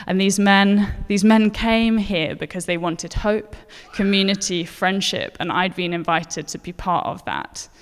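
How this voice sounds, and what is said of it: Posh English accent. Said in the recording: “I have a posh accent”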